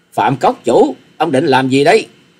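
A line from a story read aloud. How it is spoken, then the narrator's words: Angry scream. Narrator (Vietnamese): Hà Xà Tiên Tử tức giận thét lên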